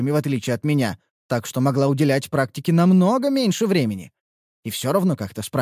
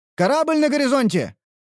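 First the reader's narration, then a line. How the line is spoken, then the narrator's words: Shouting sailor. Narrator (Russian): выкрикнул дежурный матрос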